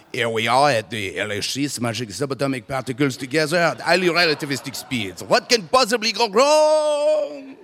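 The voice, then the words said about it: Put-on French accent. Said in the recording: “a French accent”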